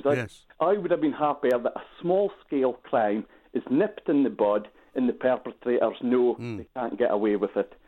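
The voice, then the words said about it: Doric Scottish accent. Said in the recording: “your very nice Doric accent that you've got”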